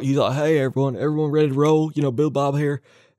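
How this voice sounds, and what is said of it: Billy Bob Thornton impression. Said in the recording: “You did a better Billy Bob impression than the Sling Blade guy.”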